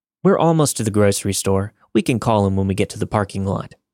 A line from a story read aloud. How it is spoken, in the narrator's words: I said